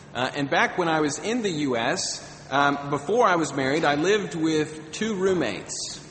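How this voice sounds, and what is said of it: American accent. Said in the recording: “I'm actually from the United States, if you can't tell by my accent.”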